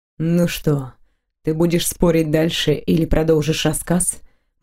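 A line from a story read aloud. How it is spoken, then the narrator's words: Gloomy question. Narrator (Russian): мрачно спросил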